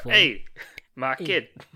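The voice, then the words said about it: Put-on accent. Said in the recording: “you've been working on that accent”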